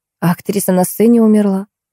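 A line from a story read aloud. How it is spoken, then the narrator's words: Mumbled. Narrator (Russian): промямлила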